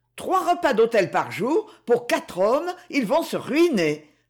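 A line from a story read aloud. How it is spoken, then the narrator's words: Exclaimed. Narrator (French): s'exclama Madame Sébastien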